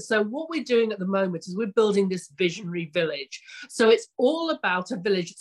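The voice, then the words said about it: English accent. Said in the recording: “I'm actually obviously English, but you can tell by my accent”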